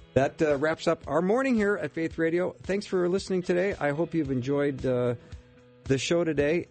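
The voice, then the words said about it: Slightly hoarse, froggy throat. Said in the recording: “I've got a little bit of a frog in my throat”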